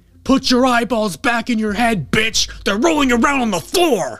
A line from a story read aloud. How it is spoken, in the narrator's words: an inmate who kept screaming at me